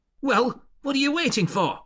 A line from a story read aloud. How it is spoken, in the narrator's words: Miss Crumley snapped